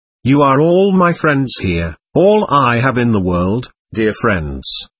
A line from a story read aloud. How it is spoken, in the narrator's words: she warmly, in a voice which quivered with genuine tears of suffering